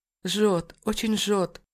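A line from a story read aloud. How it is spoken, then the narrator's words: Whimpering in pain. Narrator (Russian): Проскулила она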